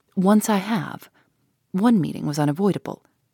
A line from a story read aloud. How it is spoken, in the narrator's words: replied gravely